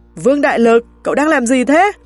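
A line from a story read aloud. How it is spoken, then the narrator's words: Screaming. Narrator (Vietnamese): Tôi gào lên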